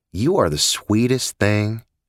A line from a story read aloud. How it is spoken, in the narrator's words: she cooed